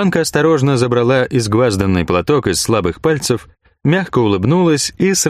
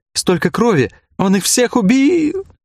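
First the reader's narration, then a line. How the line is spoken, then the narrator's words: Sobbing. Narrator (Russian): Снова начались рыдания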